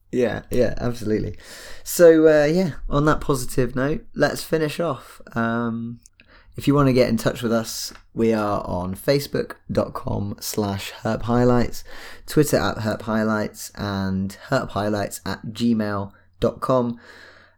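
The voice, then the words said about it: Husky voice. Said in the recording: “my voice is a bit husky this week. I'm not very well.”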